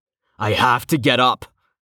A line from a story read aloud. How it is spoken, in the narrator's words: Rain growled, fighting to raise himself off the ground